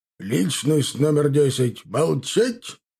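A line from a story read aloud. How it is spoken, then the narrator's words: Barked. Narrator (Russian): рявкнул тот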